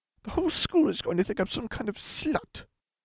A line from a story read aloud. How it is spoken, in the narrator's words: Katie spat